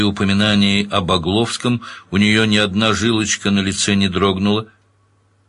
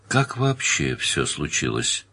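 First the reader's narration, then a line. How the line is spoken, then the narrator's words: Soft question. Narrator (Russian): спросил Данил мягко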